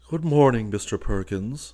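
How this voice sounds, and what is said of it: Sad, melancholy voice. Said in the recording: “in a sad voice”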